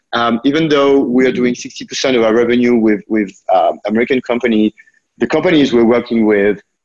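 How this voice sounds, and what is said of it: French accent. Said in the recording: “you also might notice from my accent that I was born there”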